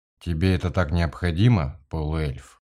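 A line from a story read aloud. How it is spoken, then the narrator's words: Forced calm voice. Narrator (Russian): Дорс постарался говорить спокойным голосом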